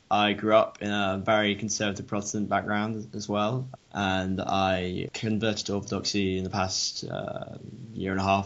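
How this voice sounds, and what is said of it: English accent. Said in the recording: “I'm a theology undergrad in Durham, England, if you didn't know by the accent”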